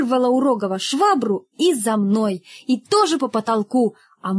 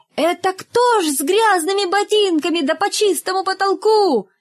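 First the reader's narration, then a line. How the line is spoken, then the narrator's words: Cleaning woman's sudden shout. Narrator (Russian): уборщица как закричит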